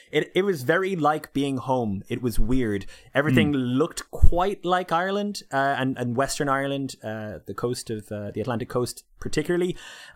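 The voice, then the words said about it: Mild Irish accent, slightly Canadian. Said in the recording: “I don't have the strongest Irish accent in the world. It's a little bit Canadian because of my fiance.”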